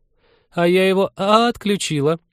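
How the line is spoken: Giggle. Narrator (Russian): Маша хихикнула

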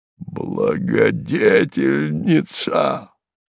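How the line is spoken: Anguished moan. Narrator (Russian): простонал Харлов

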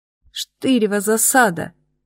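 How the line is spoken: Groaned. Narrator (Russian): застонала я

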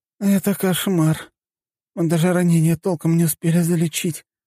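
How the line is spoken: Muffled moaning. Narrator (Russian): простонала зеленоволосая девушка, лицом лежавшая на столе

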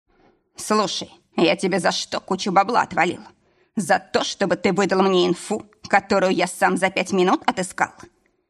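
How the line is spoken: Barely restrained barking shout. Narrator (Russian): Рявкнул, плохо сдерживая эмоции

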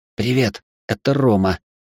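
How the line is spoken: Whispered. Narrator (Russian): шепотом сказал я

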